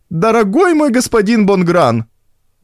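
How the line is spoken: Shouting old woman. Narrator (Russian): закричала тетушка Бужеваль

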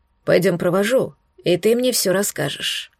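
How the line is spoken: Soft dragon voice. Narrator (Russian): мягко продолжил говорить туманный дракон

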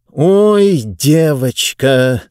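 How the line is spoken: Through gritted teeth. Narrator (Russian): сквозь зубы процедил Мурготроид

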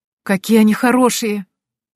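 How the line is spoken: Exclaimed. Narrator (Russian): воскликнула

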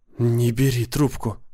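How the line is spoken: Whisper. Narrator (Russian): шепнула жена

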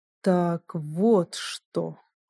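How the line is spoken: Strange tone. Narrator (Russian): он произнес странным тоном

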